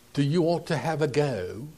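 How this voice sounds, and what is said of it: Put-on English accent. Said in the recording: “in his English accent”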